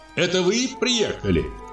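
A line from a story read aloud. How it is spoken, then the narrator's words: Shouted. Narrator (Russian): крикнула она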